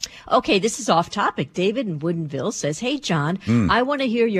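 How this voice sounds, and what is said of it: Usual voice. Nothing is said of it.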